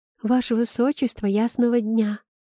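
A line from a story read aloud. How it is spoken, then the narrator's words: Embarrassed flustered babble. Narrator (Russian): смущенно пролепетала разрумянившаяся Айла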